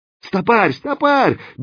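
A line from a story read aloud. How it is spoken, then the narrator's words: Helpless yell. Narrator (Russian): беспомощно заорал Кирза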